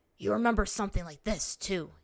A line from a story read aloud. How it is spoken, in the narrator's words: said, grunting as his limbs twisted and strained